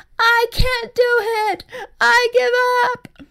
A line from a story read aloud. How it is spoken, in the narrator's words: EJ … wailed